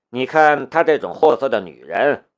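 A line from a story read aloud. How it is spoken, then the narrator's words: Flat, indifferent. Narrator (Chinese): 他淡淡的道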